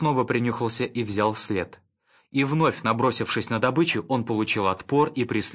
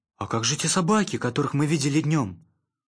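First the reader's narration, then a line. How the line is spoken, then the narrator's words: Timid question. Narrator (Russian): робко спросил Шустрик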